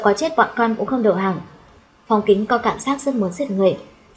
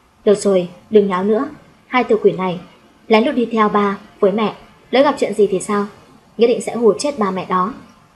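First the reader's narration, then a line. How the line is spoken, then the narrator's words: Laughing loudly. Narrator (Vietnamese): Tô Mộc Vũ cười to nói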